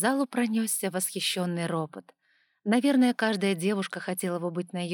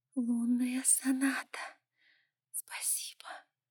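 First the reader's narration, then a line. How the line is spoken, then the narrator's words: Soft whisper. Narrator (Russian): тихо прошептала Ева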